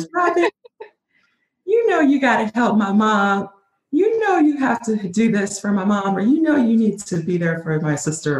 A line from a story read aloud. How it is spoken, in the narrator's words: in her little sweet little voice